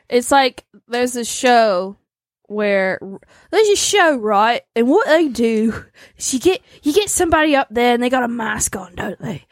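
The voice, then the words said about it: Put-on British accent. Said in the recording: “I don't know why I'm doing the British accent”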